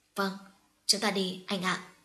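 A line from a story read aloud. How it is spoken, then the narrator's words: Soft enraptured reply. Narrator (Vietnamese): Mẫn Nghi dường như ngây ngất trước câu nói của anh, nàng khẽ đáp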